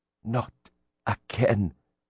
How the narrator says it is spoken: he whispered

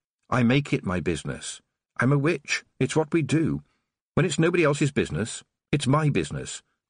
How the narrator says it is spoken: Tiffany said quickly

